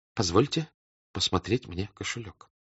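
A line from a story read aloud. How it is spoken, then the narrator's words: Barely audible quiet voice. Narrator (Russian): сказал он тихим, чуть слышным голосом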